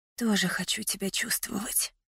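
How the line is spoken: Quiet confession. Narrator (Russian): призналась я тихим голосом

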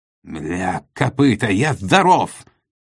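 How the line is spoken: Roar. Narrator (Russian): взревел великий фюрер

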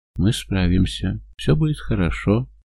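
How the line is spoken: Soft. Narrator (Russian): мягко говорит она

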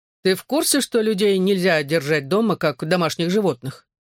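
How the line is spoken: Snide question. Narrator (Russian): ехидно спросил Гипси

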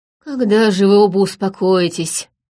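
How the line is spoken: Weary. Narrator (Russian): устало проговорил профессор Адмир

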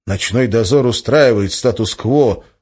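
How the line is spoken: Gloomy. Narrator (Russian): мрачно произнес Валентин

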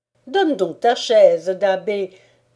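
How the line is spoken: Mother exclaiming. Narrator (French): s'exclama la mère Chapdelaine

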